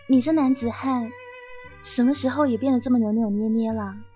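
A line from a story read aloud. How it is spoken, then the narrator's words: Mocking. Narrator (Chinese): 我扭头嘲笑他说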